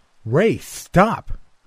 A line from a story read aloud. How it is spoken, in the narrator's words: I yelled